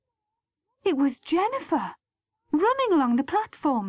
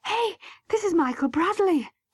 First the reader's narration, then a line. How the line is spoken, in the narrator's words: she panted